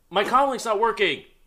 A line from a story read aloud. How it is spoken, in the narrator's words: screaming